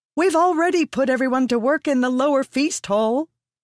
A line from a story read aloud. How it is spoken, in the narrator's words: Maratham cried